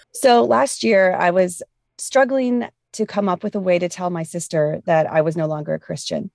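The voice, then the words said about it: Weak, sick-sounding voice. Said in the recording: “apologize for my voice. I'm getting over something and I'm trying real hard to talk loud and clearly.”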